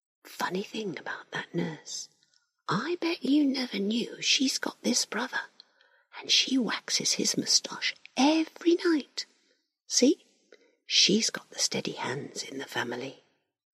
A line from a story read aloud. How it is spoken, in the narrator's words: Larry whispers